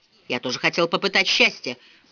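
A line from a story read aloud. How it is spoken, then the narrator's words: Mutter. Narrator (Russian): пробормотал мистер Вандермар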